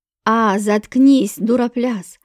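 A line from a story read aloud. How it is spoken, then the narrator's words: Watchman growling. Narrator (Russian): рыкнул на него сторож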